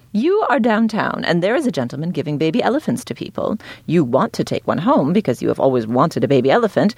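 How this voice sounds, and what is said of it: Snooty, clipped old-Hollywood accent. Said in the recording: “I always try to read in a really snooty British accent ... I guess this isn't a British accent. It's sort of more like a clipped Hollywood thing.”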